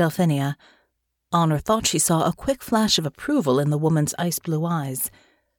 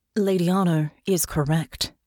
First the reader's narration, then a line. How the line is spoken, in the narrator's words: she said, her voice coming out level and deeply serious